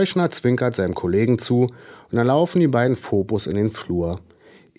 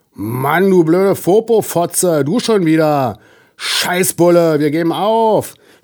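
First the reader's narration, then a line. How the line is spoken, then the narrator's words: Shout from inside apartment. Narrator (German): schreit es aus der Wohnung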